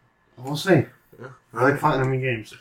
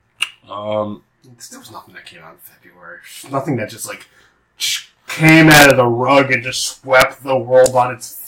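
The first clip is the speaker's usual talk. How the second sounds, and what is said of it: Sarcastic delivery. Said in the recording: “That was sarcasm. ... That was 100% sarcasm.”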